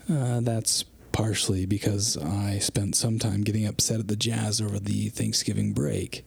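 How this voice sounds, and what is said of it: Quieter, subdued voice, not full volume. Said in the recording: “my voice is not what it usually is, which is to say, disruptive and loud ... they can't hear me at full volume”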